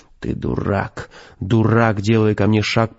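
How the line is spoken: Growled. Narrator (Russian): прорычал Костя

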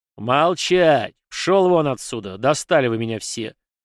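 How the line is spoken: Colonel's angry growl. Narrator (Russian): зарычал полковник

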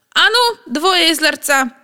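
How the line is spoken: Shouting. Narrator (Russian): крикнул Вовка

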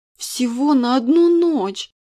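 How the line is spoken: Tearful exclamation. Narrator (Russian): со слезами в голосе воскликнула незнакомка

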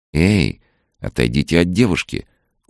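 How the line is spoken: Calm serious command. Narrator (Russian): очень спокойно и серьезно приказала Соня

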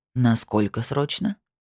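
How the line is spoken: Grumbled. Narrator (Russian): проворчал он

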